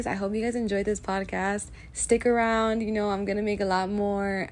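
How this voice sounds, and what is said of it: Slightly rough voice. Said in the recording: “my voice is a little rough right now”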